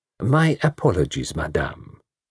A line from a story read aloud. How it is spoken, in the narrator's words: said